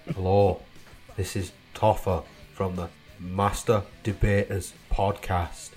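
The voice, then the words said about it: Imitates another person's accent. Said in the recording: “Did your accent for you there, boys. I don't know if that's going to offend you”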